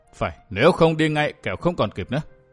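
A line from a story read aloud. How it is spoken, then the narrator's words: Stern voice. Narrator (Vietnamese): Lâm Tùng Hải nghiêm giọng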